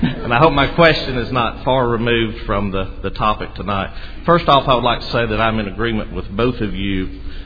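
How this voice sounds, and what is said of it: Southern US North Alabama accent. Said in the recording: “I hope my accent is not as far removed, being from North Alabama, from the British accent.”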